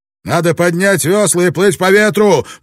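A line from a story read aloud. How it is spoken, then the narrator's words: Shouting. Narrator (Russian): прокричал Блэкторн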